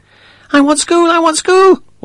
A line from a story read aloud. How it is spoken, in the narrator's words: cried